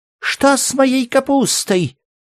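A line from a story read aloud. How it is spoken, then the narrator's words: Housewives shrieking. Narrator (Russian): завизжали все хозяйки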